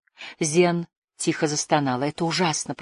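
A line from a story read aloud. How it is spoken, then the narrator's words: Mutter. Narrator (Russian): пробормотала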